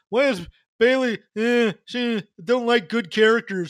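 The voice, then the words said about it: Imitates another person's voice. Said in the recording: “That's my impression of him.”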